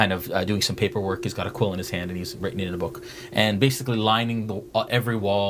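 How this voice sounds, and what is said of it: Usual voice. Nothing is said of it.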